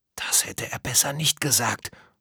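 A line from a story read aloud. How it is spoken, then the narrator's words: Quiet whisper. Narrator (German): flüsterte Tom leise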